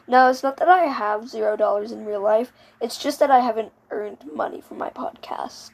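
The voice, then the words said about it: Weird, just-woken-up voice. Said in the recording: “my voice sounds weird. I woke up a little while ago.”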